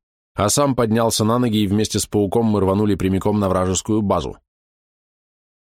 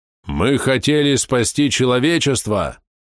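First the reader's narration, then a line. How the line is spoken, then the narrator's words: Loud. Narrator (Russian): громко заговорил Гарруд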